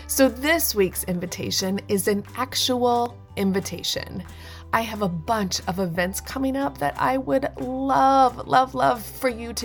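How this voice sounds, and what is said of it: Voice sounds off from a cold. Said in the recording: “my voice sounds funny, I caught a cold”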